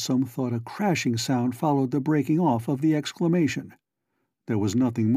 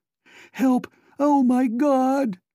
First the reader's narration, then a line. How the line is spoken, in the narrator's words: a fright-mad voice shriek out